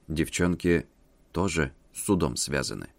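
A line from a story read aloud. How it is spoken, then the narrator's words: Very quiet whisper in ear. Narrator (Russian): очень тихо, чтобы за дверью не услышали, на ушко прошептал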